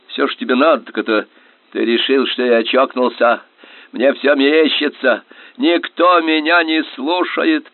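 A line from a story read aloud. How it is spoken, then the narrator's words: Nearly shouting. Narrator (Russian): почти прокричал он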